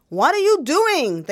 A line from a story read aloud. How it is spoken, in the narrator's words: yelled in English and Spanish